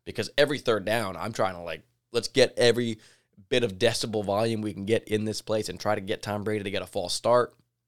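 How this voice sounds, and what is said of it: Slightly raspy, strained voice. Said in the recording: “losing my voice. I sound a little bit raspy today still 2 days later”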